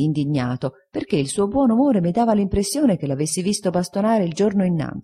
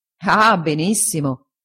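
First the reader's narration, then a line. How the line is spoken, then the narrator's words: Laughing. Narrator (Italian): disse Traddles ridendo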